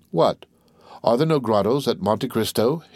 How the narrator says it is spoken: he asked

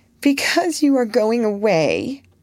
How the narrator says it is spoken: that undignified creature answered, with an irrepressible sob

